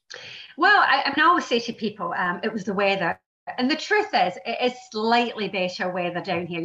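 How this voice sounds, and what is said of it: Scottish (Glasgow) accent. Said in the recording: “you probably have gathered from the dialect that I'm not actually native born in England. I was born in Glasgow in Scotland”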